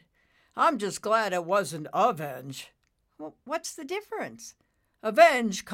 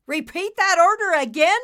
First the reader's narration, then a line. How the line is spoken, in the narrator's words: Nimbus shouted